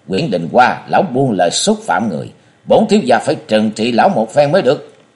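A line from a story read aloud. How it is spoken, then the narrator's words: Loud shout. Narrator (Vietnamese): quát lớn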